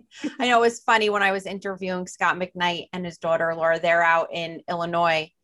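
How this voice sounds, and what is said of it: New Jersey accent. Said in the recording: “I say it with that Jersey drawl ... my accent ... I love your accent ... I'm detecting an accent ... I thought I heard an accent”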